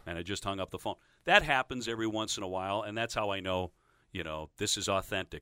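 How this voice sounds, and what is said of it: Articulate, clean radio announcer voice. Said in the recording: “it's like a radio guy voice ... You've got a very nice, articulate, clean radio voice ... it's like the Ted Baxter thing”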